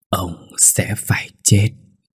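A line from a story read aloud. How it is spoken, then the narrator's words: Hateful eerie whisper. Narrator (Vietnamese): Hường, nhìn ông bằng ánh mắt căm hận, miệng nở một nụ cười ghê rợn thì thầm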